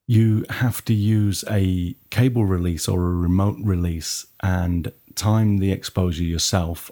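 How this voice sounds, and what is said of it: Nottingham English accent. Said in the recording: “my Nottingham accent”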